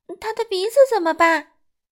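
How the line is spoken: Shouting. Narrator (Chinese): 快乐先生喊道

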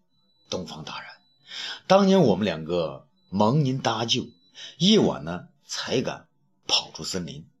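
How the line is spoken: Sighing, slow speech. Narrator (Chinese): 这卖茶人叹了口气，然后慢慢的说道

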